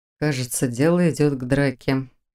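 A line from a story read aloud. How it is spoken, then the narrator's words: Quiet mutter. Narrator (Russian): тихо пробормотал Фарлак Тари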